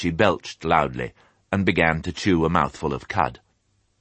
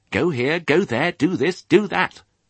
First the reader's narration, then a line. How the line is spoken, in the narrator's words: he squeaked furiously